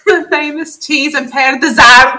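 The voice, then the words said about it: Loud, bad fake Scottish accent. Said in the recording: “the very clear Scotsman that was not Scottish ... That was the worst Scottish accent I've ever heard. And he was just loud.”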